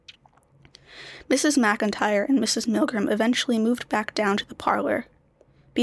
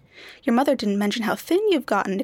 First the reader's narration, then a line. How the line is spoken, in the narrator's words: exclaimed Mrs